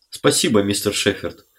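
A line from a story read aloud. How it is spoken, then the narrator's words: Dry reply. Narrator (Russian): сухо ответил Диксон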